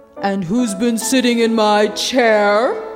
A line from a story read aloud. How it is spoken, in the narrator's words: growled the Father Bear